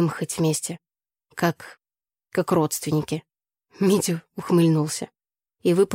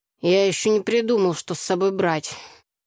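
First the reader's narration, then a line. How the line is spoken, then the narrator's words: Lazy reply. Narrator (Russian): лениво отозвался Митя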